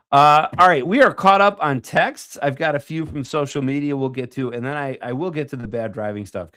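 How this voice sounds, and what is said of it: Sick, muted voice. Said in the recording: “Sounds muted and like a different pitch ... your little sick voice ... like Phoebe when she got sick”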